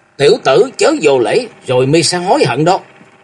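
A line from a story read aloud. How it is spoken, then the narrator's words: Angry shout. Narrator (Vietnamese): Lão động chủ giận dữ quát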